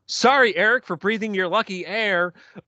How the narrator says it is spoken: Sean he yells

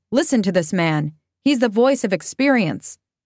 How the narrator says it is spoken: the father slapped the boy, saying

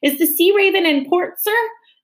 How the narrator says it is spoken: Captain Swain shouted

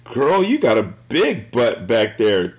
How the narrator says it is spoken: Dave said with a laugh

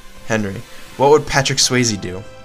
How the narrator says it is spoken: Miles murmurs in his sleep

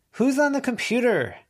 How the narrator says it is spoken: Declan shouted

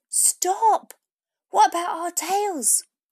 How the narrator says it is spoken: one of the dogs shouted

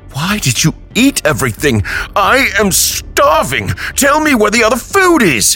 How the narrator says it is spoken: he shouted

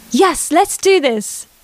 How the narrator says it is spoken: Chloe exclaimed happily

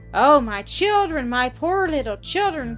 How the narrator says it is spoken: cried the mother, bursting into tears

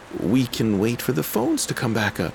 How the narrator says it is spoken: pleaded with him

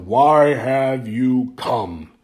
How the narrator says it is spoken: slowly he bellowed

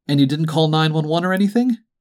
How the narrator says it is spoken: Dwight asked

